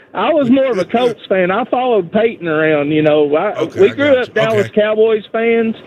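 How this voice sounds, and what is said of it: Strong, distinctive regional accent. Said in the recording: “I love your accent, by the way. I could literally listen to you all night long ... what an accent that guy's got. Are you kidding me?”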